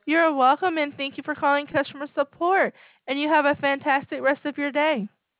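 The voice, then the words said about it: Southern American drawl. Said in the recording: “I love your southern accent or whatever. That's southern accent, right?... drawl”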